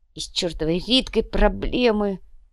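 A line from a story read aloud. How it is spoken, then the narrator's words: Miserable groan. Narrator (Russian): Простонал несчастный Инций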